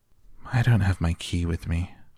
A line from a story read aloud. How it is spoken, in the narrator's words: I sighed